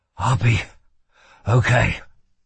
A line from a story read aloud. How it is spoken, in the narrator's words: whispered shakily